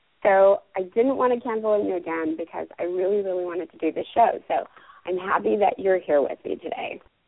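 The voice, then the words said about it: Raspy, hoarse voice. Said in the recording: “I'm getting over laryngitis, so I have a little bit of that ... work the raspiness”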